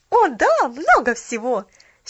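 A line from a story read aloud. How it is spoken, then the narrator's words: Happy exclamation. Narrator (Russian): счастливо воскликнула Поллианна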